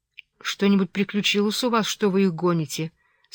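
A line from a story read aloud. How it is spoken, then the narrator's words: Plain. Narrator (Russian): спросила я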